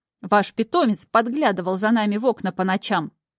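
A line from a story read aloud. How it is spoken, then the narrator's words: Angry shout. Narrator (Russian): зло выкрикнула она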